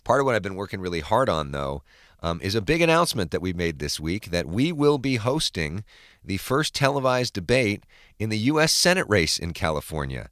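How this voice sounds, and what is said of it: Voice sounds a little sick. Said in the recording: “a bit of a new voice for me ... I sound a little sick.”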